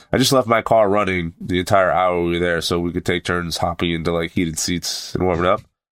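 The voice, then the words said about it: Sick, rough-sounding voice. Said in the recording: “as you can hear in my voice, ... I sound like shit ... I had a fever ... this chest pain”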